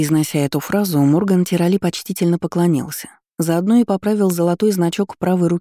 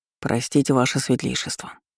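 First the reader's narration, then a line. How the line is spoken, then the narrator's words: Muttering guard. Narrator (Russian): пробормотал страж уже в человеческом обличии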